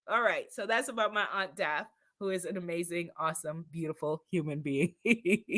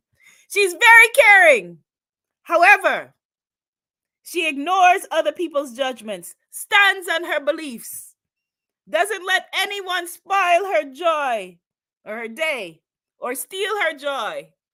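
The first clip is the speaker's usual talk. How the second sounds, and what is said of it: Bad imitation Guyanese accent. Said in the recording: “a very bad Guyanese accent”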